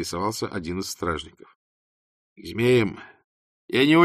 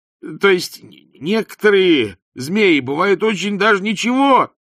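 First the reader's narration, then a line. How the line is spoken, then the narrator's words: Futile yell. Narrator (Russian): тщетно завопил Ринсвинд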